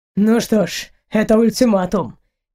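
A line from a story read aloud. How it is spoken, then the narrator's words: Joyless snort. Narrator (Russian): невесело хмыкнул Эйнар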